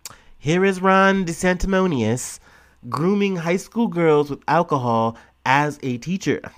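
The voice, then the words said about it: Weak Donald Trump impression. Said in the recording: “my Trump impression's off today”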